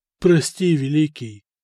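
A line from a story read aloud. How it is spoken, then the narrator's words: Timid. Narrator (Russian): робко заглядывая в глаза, произнес Мартирос, бывший сасанитский правитель Армении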